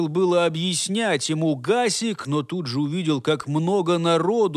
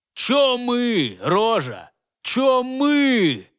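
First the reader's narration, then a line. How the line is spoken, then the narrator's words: Displeased guard barking. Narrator (Russian): рявкнул на него еще раз недовольный стражник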